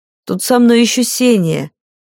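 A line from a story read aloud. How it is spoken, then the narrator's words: Guilty sigh, woman. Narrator (Russian): виновато вздохнула женщина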